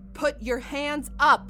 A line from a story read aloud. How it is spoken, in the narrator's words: Margot yells